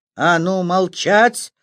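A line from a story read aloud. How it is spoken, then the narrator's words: Barked command. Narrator (Russian): гаркнул мужик, похожий на генерала Лебедя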